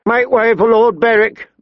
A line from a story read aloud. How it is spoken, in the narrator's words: the rider shouted